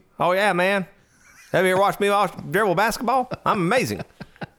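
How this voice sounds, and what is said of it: Slight Southern American accent. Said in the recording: “kind of a southern accent”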